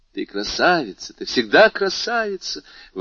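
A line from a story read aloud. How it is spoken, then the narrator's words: Exclaimed. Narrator (Russian): воскликнула Луиза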